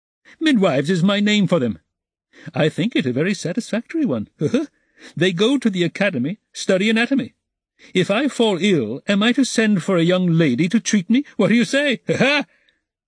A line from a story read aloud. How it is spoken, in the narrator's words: Ilya Petrovitch laughed, quite pleased with his own wit